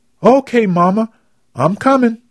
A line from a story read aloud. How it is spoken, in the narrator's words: Maggie yelled back